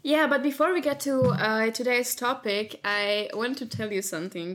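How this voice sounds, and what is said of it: Non-native English accent. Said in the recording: “I'm not a native English speaker, as you might have already recognized by my super weird accent... I sound weird.”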